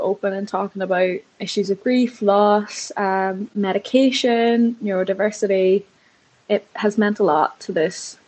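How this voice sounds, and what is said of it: English small-town accent. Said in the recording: “it definitely sounds like that accent from you is from a small English town”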